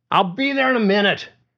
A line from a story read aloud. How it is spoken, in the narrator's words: Pauly shouted back